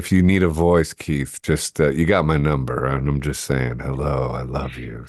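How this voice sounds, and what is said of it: Congested, stuffy-nosed voice. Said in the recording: “I'm a bit congested right now”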